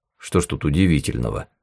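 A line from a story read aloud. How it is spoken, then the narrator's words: Grumbled. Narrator (Russian): буркнул Костров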